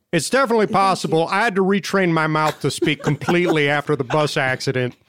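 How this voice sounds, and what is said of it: Southern American accent. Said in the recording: “you sound like you're from the South”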